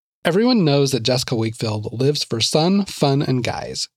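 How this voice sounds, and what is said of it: Sassy California accent. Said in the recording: “I can't not do a sassy California accent when I read this.”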